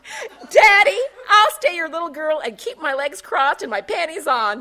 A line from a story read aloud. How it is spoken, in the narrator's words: Taffy exclaimed, exceedingly pleased with her summary